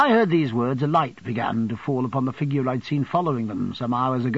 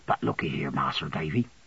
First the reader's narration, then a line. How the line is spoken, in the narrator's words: lowering his voice and speaking very gravely